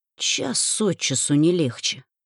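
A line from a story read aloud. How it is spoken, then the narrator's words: Muttering. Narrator (Russian): пробормотала я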